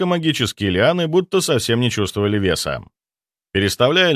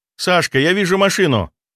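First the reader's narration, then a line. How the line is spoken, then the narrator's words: Joyful shout. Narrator (Russian): радостно выкрикнул Дима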